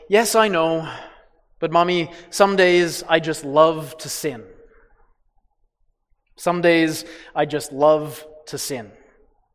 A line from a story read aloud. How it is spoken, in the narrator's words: He sighed a big sigh and said